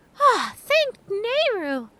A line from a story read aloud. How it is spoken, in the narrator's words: Tattle exclaimed